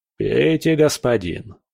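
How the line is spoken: Plain. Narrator (Russian): сказал он

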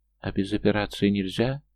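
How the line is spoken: Timid question. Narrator (Russian): спрашивает робко

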